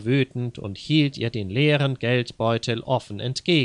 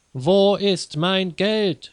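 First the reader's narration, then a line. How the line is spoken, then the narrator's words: Shouting again. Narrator (German): schrie abermals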